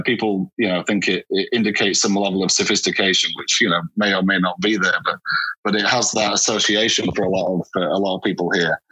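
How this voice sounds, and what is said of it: Northern English accent. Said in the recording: “you've got that wonderful Northern accent that in England we recognize so well”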